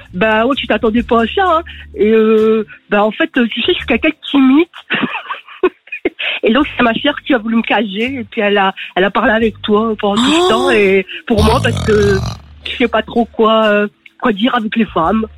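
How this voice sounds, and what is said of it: Man's voice imitation, clichéd northern accent. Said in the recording (French): “L'imitation est folle ... l'accent du Nord ... Surtout dans le mode cliché”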